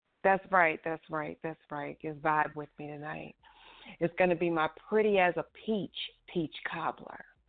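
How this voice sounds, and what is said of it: Put-on sexy voice. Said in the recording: “put on my sexy voice for this ... See the sexy voice ... This is sexy voice ... it takes too much energy for me to talk like that”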